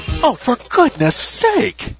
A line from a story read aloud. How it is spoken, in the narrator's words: Nina exclaimed